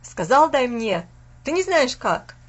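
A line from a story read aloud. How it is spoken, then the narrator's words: Rough shout. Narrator (Russian): грубо закричал Фас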